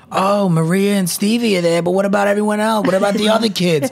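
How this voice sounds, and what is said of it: Put-on Brooklyn accent. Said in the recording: “I don't know why I did that accent, but I'm from Brooklyn, so that's kind of how some of my family talks.”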